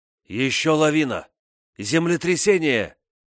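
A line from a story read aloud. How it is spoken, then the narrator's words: Shouting over a roar. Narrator (Russian): Перекрывая нарастающий грохот, закричал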